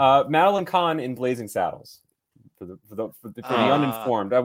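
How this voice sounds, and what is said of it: Usual voice. Nothing is said of it.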